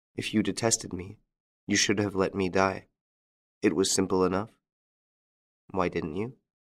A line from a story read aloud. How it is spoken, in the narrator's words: He said to her, gently